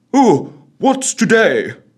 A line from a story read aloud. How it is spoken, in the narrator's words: cried Scrooge, calling downward to a boy in Sunday best clothes